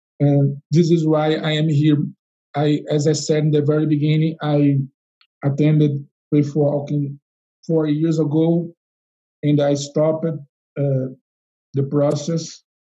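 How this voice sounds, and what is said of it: Non-native English accent. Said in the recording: “my accent, even with my English that is not so perfect”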